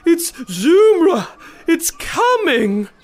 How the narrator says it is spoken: wailed

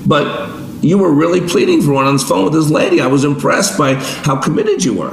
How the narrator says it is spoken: The store owner pleaded

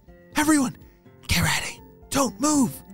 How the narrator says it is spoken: whispered Weston

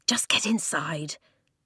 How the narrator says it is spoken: Flint hissed

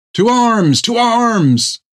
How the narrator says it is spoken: she yelled out

